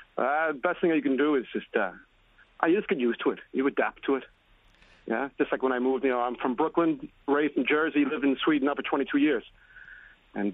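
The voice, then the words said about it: New Jersey accent with Swedish tinge. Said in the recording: “You got that Jersey. You've got that Jersey Swedish accent”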